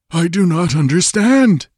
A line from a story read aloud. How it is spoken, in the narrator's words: he stammered